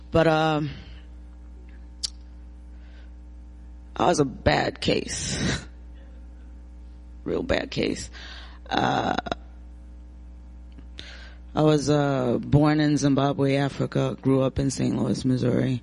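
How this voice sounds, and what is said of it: Rusty, hoarse voice. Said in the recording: “my voice is really rusty this morning”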